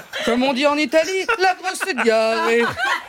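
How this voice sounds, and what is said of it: Poorly done Italian accent. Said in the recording (French): “Un accent italien non maîtrisé ... L'accent ne passe pas.”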